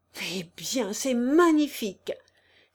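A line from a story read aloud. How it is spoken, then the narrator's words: Delighted, surprised exclamation. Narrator (French): s'écria Anzoletto, ravi de surprise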